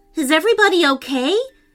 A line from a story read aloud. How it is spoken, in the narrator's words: asked urgently